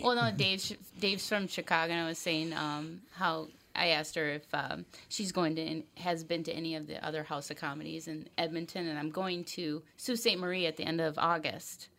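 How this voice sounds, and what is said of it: Minnesota accent. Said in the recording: “he's always making fun of my Minnesota accent... well, you do have a Minnesota accent... but not in not like northern Minnesota”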